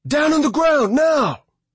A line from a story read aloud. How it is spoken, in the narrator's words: the officer yelled